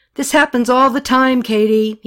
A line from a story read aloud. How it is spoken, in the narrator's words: he yelled right back at her